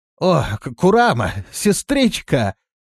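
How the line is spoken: Exclaimed. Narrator (Russian): воскликнул он

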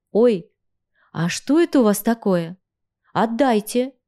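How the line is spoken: Quiet but firm. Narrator (Russian): Тихим, но твердым голосом произнесла я

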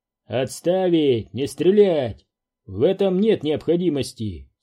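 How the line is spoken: Calm command. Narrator (Russian): спокойно приказал Уилкс

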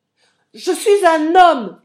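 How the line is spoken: Screaming. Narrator (French): hurlai-je

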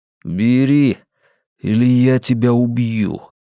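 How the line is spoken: Through gritted teeth. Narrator (Russian): процедил Флетчер

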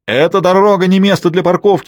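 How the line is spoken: Shouting. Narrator (Russian): кричал Вильгельм Гопкинс

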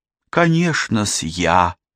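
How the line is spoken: Purring woman. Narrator (Russian): мурлыкнула Нора

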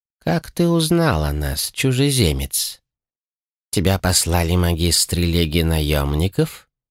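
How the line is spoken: Old man speaking calmly. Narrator (Russian): Спокойно заговорил старец

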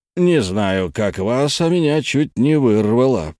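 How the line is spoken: Grumbled. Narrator (Russian): проворчал дядя Джанни

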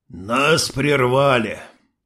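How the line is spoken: Sighing. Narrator (Russian): Вздохнул шериф

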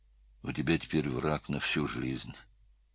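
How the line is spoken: Muttered. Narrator (Russian): пробормотал Слава

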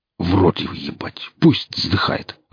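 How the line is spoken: Growled while walking. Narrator (Russian): рыкнул Аса на ходу

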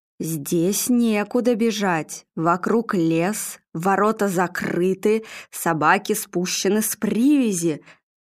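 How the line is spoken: Ominous voice. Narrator (Russian): зловещим голосом произнесла Нина

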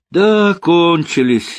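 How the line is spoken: Laughing. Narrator (Russian): засмеялся Рокоссовский

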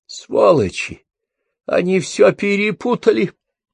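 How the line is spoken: Moaning. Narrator (Russian): простонал он

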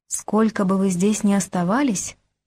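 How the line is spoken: Sudden whisper. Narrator (Russian): вдруг прошептала она

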